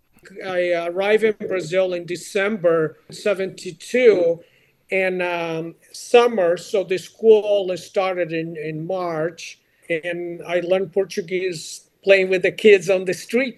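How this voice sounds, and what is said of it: Portuguese-accented English. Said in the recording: “My accent is Portuguese”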